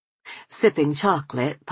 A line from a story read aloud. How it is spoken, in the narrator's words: Papa sighed